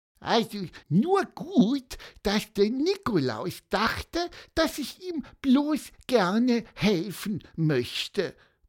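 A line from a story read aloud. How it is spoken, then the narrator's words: Squeaking. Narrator (German): piepste Pieper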